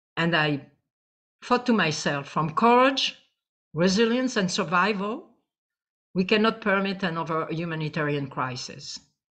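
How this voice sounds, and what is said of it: Speaks with a noticeable accent. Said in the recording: “Sorry for the accent.”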